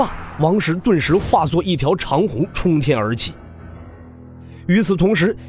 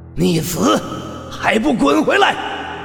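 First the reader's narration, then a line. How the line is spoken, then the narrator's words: Booming, carrying voice. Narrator (Chinese): 这道声音传遍每个角落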